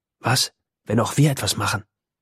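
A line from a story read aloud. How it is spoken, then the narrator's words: Whispering. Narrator (German): flüstert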